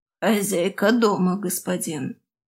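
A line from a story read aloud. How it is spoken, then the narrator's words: Creaky slave woman. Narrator (Russian): проскрипела рабыня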